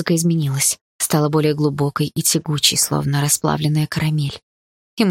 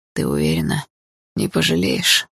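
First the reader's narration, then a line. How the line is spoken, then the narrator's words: Slightly strained voice. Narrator (Russian): спросил он чуть сдавленным голосом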